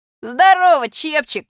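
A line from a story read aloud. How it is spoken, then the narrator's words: Shout. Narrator (Russian): крикнул я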